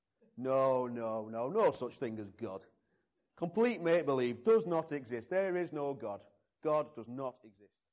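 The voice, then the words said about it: Put-on Yorkshire accent. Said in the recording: “You have to forgive my Yorkshire accent.”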